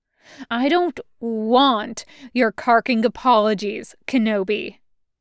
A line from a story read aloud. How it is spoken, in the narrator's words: snarls